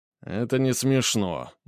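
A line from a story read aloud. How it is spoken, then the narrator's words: Grumbling mutter. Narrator (Russian): буркнул Папандопуло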